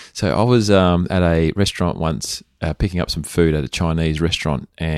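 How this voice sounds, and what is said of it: Usual voice. Nothing is said of it.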